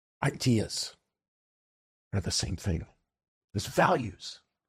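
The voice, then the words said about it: Imitates another person's voice. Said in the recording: “my Jordan Peterson impression”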